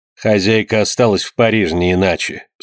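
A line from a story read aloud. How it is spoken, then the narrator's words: Dry reply. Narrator (Russian): сухо ответила она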